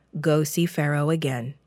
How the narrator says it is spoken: the Lord said

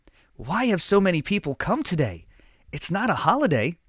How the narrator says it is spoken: whispered

